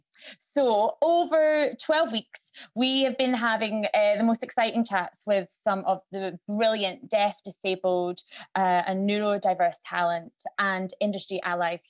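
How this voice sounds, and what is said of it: Scottish accent. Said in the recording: “if you can hear my accent, you'll have noticed I'm Scottish”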